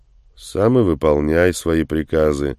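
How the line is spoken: Gloomy mutter. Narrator (Russian): мрачно буркнул в ответ Андрей

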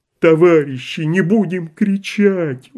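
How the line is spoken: Pleading voice. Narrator (Russian): умоляющим голосом просил Балуун

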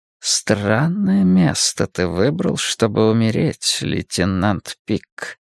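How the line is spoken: Mutter under breath. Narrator (Russian): пробормотал он себе под нос

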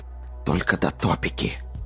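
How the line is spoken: Low voice. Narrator (Russian): вполголоса сказал Джейк

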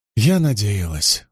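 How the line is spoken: Sighing. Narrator (Russian): вздохнула Найниф

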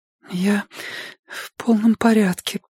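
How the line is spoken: Trembling, lying voice. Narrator (Russian): дрожащим голосом солгала Робин

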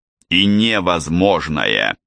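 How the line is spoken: Stern warning. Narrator (Russian): строго предупредил Тедди

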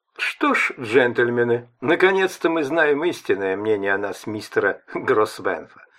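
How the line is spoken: Sarcastic remark. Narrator (Russian): язвительно заметил Кент

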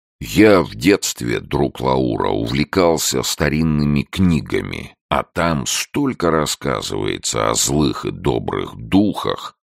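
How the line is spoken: Slow booming bass. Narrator (Russian): сказал он медленно гудящим басом

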